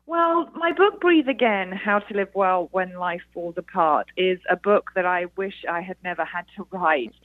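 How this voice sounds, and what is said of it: British accent. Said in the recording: “as you can probably tell from my accent, I am a Brit here in the USA.”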